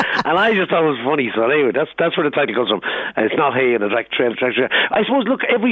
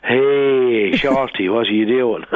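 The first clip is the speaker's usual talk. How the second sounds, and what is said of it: Imitates a Tipperary Irish accent. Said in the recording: “every time he rings me from Cashel in County Tipperary, that's his accent.”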